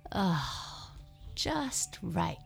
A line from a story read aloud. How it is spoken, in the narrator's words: she sighed